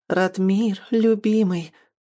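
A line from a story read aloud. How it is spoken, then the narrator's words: Tender voice. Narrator (Russian): Нежным голосом повторила она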